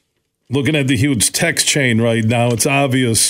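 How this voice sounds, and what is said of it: Usual voice. Nothing is said of it.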